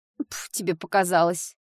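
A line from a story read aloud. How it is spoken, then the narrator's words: Embarrassed snort. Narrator (Russian): фыркнула Дэрил, вновь покраснев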